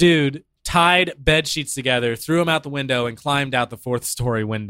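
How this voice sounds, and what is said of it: Usual voice. Nothing is said of it.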